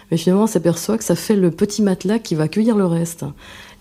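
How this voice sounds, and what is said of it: Regional French accent. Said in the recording (French): “Vous retrouvez votre accent doucement hein, de là-bas.”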